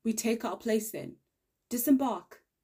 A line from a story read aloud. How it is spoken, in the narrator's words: The latterly bellowed call to action was a raspy roar